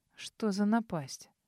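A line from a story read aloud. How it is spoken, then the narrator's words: Quiet mutter. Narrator (Russian): Тихо пробормотал он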